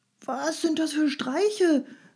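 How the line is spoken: Calling out. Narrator (German): rief er

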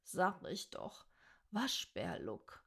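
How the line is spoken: Annoyed murmur. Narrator (German): murmelte sie verstimmt

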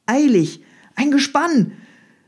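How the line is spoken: Called out. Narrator (German): rief Michael

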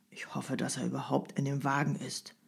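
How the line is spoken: Murmur. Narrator (German): murmelte einer der Wartenden

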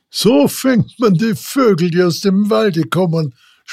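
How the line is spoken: Loud laughing speech. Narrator (German): sprach der Vogelsteller laut lachend

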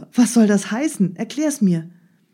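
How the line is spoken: Called out. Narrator (German): rief Ali Baba

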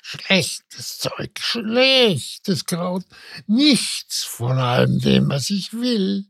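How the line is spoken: Muttering. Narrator (German): murmelte sie

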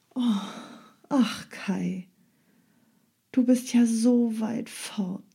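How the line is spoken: Sighing. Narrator (German): seufzte Gerda

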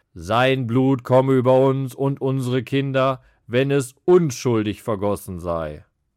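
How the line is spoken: Calling out. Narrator (German): rief

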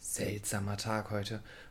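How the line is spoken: Murmuring. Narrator (German): murmelte sie dann

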